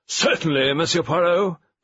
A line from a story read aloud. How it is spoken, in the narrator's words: boomed Lady Westhome